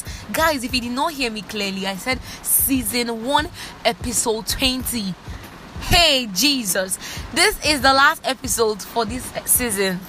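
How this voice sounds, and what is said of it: Very excited, energetic voice. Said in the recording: “my excitement is off the roof. Like, you can literally hear my excitement. You can hear it from my voice”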